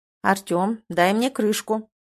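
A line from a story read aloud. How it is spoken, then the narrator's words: Commanding tone. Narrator (Russian): говорит приказным тоном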